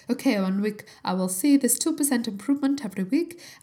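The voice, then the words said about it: Unidentified put-on accent. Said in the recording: “I'm all about the accents today. Don't know, I don't even know what accent that is.”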